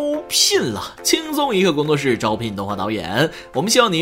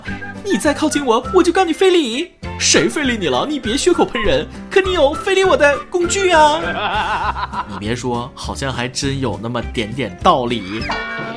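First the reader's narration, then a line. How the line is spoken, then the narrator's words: Loud yell. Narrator (Chinese): 妇女大叫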